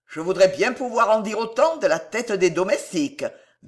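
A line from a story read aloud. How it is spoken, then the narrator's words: Big man grumbling. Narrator (French): grommela le grand porteur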